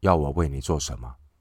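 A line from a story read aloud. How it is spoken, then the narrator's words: Plain question. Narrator (Chinese): 主耶稣提问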